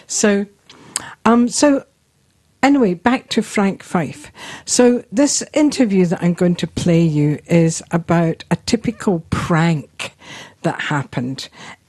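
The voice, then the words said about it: Mixed Scottish and New Zealand accent. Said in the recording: “my accent is not a New Zealand accent, but neither is it a Scottish one anymore. It's somewhere in between, so a bit of both, via London of course too.”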